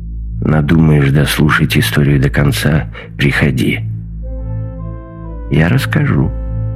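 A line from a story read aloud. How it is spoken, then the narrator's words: Quiet, old man. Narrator (Russian): старик негромко сказал ему в спину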